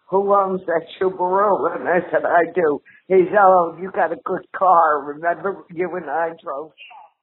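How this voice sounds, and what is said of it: Stereotypical New Jersey accent. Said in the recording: “my grandma has a very stereotypical Jersey accent”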